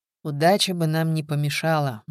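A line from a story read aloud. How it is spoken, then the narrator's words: Gloomy. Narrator (Russian): мрачно сказал Коломеев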